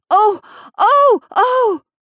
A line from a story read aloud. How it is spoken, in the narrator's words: they shrieked